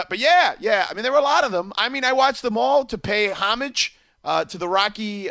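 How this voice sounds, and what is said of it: Usual voice. Nothing is said of it.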